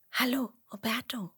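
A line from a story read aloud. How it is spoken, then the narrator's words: Whisper. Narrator (German): flüstert Emmerla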